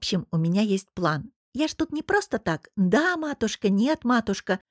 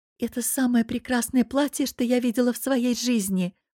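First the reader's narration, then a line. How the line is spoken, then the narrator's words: Breathed in admiration. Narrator (Russian): восхищенно выдохнула Мари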